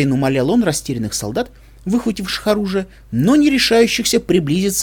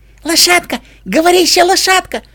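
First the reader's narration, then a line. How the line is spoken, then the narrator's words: Thin voice yelling in ear. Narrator (Russian): орал тоненький голосок прямо в ухо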